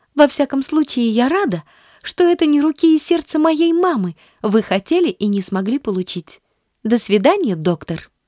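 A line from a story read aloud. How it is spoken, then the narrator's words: Beaming exclamation. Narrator (Russian): воскликнула, просияв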